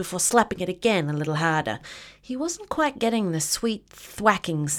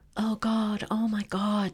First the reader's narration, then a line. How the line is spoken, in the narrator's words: under his breath